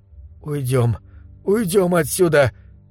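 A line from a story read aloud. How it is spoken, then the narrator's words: Strained hoarse wheeze. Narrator (Russian): прохрипел я, вставая с огромным усилием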